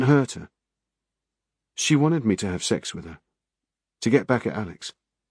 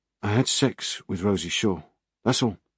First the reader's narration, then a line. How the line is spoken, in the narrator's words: he said, his voice flat